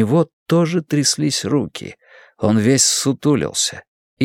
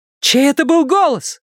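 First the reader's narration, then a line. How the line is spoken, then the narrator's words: Shout. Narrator (Russian): крикнула Вера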